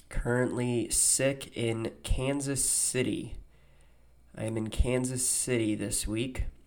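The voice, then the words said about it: Sounds sick, under the weather. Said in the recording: “I'm a little under the weather. Might be able to hear it in my voice.”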